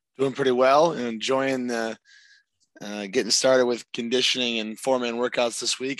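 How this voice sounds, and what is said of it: Hoarse, strained voice. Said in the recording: “I don't know if you guys can tell or not, but I'm already starting to lose my voice”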